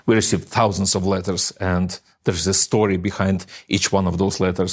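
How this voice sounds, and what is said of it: Speaks with a foreign accent. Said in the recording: “I love this man's accent. I could listen to ... all day long”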